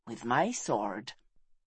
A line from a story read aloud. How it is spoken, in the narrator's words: she replied softly